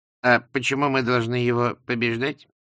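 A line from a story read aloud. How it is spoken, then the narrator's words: Reasoning tone. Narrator (Russian): рассудительным тоном спросил Лузган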